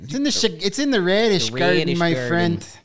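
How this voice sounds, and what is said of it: Put-on Chicago accent. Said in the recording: “I feel like I need to say that with a Chicago accent.”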